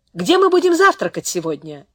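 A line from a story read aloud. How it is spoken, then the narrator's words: Loud question. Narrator (Russian): Ян спросил это громко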